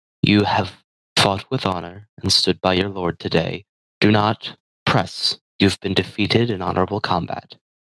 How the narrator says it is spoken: he softly says

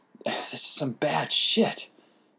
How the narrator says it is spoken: I said with a sigh

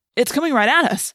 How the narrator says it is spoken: I cried

